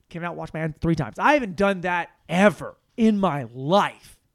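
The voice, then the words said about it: Yelling. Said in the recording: “why are you yelling?”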